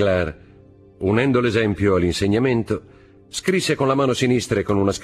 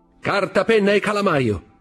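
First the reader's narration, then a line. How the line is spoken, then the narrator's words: Shout. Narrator (Italian): gridò a sua volta Fernand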